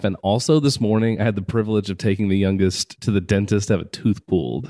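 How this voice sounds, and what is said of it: Sick-sounding voice. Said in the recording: “as you can tell by my voice. I'm a little sickly.”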